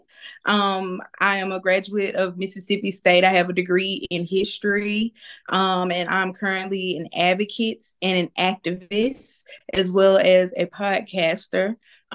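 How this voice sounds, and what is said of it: Mississippi Southern accent. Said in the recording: “I'm from Mississippi, if you can't tell by the luxurious accent.”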